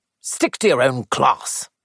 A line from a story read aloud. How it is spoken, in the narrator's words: he snapped